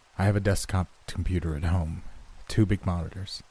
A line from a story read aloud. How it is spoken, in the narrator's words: After a sigh, I told her